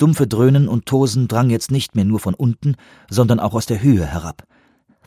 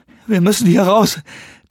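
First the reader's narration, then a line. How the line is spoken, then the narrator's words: Panting. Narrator (German): keuchte Macmillan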